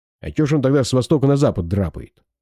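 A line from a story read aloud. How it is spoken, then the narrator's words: Snorting scoff. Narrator (Russian): фыркнул Жиган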